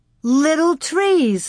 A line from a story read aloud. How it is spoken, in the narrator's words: Laura shouted